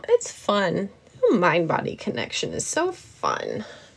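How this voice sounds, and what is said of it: Sarcastic tone. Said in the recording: “That was sarcasm. ... that was most certainly sarcasm.”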